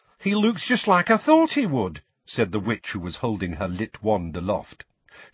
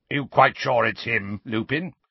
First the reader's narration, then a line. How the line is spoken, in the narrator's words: he growled